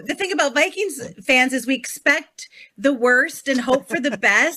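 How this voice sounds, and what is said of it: Minnesota accent. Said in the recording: “you slipped back into the Minnesota accent. I heard it come out.”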